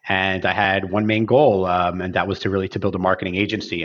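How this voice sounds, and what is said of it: Philadelphia accent. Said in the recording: “your Philly accent”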